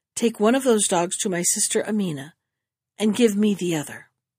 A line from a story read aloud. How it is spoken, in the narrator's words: she said with a deep sigh